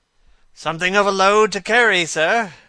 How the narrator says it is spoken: gasped the little man

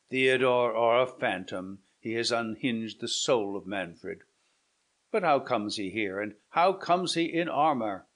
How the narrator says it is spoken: said Manfred mournfully

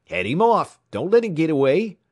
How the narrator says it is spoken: they shouted

